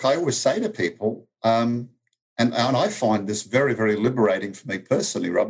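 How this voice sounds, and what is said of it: Speaks with a noticeable foreign accent. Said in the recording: “they hear the accent”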